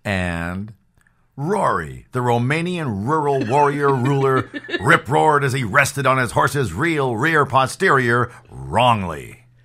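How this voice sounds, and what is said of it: Radio announcer voice. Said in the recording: “And he did it in his radio voice.”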